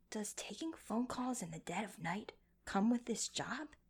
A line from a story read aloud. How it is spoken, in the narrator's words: Shimon whispered to Rechi